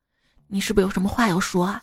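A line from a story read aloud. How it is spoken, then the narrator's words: Soft question. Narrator (Chinese): 牧师 轻声的问道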